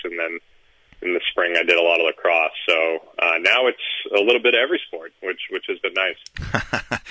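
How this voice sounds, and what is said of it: Polished radio-style speaking voice. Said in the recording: “you have a great radio voice”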